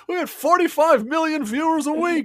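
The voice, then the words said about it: Imitates another person's voice. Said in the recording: “my bad Jerry Seinfeld impression”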